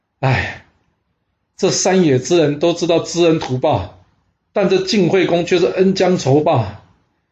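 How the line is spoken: Long heavy sigh. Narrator (Chinese): 秦穆公仰天长叹啊

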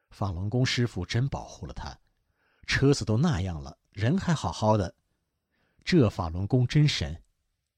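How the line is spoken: Amazed exclamation. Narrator (Chinese): 修车工人惊叹道

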